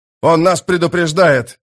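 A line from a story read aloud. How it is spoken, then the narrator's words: Shout. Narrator (Russian): закричал он Кальпу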